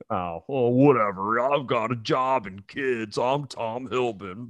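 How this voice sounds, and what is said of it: Imitates another person's voice. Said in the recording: “my impression of you”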